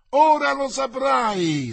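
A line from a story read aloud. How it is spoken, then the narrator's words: Shrieking chorus. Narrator (Italian): strillarono gli altri in coro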